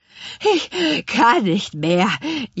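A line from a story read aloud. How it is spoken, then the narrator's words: Gasping. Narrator (German): japste Spargelzahn schließlich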